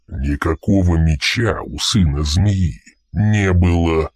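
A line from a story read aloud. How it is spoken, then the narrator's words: Growling commander. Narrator (Russian): прорычал командир патруля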